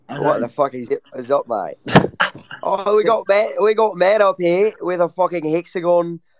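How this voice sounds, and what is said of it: Put-on Australian accent. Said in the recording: “how do you do the Australian accent?”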